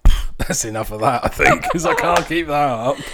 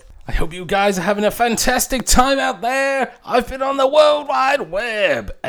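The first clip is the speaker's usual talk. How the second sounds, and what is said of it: Fairground ride announcer voice. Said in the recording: “I was thinking about the guys at the fairgrounds ... I can't do that in that voice ... Something like that?”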